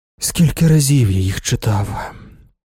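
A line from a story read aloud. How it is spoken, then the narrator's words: Sigh. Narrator (Ukrainian): Зітхнув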